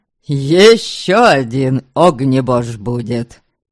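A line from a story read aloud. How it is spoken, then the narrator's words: Snort. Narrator (Russian): Дамагость хмыкнул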